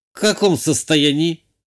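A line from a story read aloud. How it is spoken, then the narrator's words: Young woman's skeptical snort. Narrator (Russian): хмыкнула девушка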